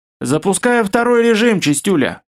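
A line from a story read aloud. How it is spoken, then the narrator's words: Smirking grunt. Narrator (Russian): хмыкнул Наб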